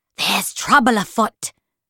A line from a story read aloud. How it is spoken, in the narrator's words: hissed, sharp as a paper cut